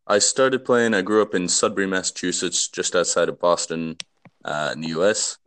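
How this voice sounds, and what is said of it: Non-Scottish accent. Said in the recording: “judging by your accent, not a native Scot”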